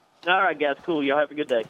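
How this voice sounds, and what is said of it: Southern American accent. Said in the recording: “need to interview more Southerners. I just love the accent.”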